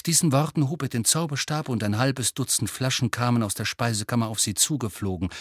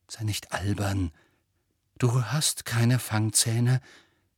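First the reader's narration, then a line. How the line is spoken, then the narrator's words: Nervous self-talk. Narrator (German): redete er sich zu und versuchte ruhig zu bleiben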